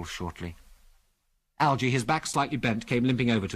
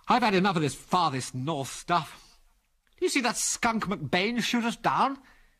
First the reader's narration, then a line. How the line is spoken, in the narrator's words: said bitterly